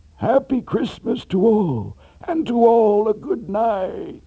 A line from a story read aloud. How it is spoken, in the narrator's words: exclaim